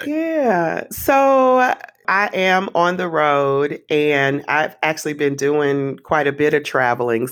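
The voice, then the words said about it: Tired, fatigued voice. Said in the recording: “I'm a little travel fatigued, to be honest. You can probably hear it in my voice.”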